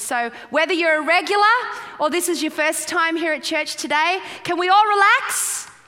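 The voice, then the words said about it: Australian accent. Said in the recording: “Can you understand my accent? I'm trying not to sound so Australian. Do I sound Australian? ... I just sound like a kind of just not quite right American”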